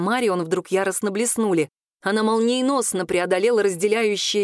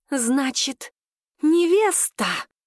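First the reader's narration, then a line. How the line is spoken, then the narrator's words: Snakelike hiss. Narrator (Russian): змеей прошипела Марион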